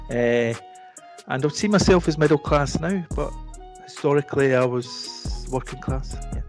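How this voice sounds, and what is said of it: Scottish accent. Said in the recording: “You'll be able to tell by my dialect, I'm from Scotland.”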